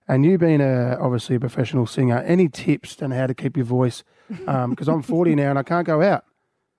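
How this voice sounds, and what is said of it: Very croaky voice. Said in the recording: “my voice is very croaky ... I've lost my voice”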